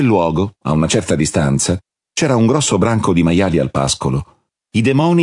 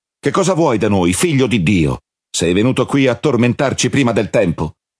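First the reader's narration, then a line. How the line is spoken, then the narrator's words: Shouting. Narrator (Italian): Si misero a urlare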